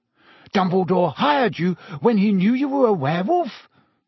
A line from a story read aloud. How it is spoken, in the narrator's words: Ron gasped